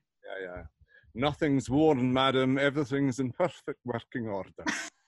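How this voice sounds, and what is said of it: Convincing put-on accent. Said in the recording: “I love that accent. It's so good.”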